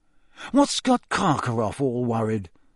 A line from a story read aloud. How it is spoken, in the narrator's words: Ron muttered